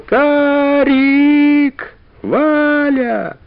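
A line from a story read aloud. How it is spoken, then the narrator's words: Loud shout. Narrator (Russian): громко кричал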